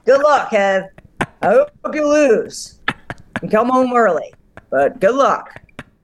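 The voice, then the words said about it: Imitates another person's voice. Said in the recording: “you didn't do an Anson voice impression there ... That was more what it was like.”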